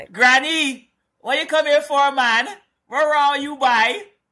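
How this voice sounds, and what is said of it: Attempted Guyanese accent, sounds Trinidadian. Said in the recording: “my Guyanese accent ... That sounds a little bit tritty ... It sounds very Trini. Sound that sounds like a Trini accent.”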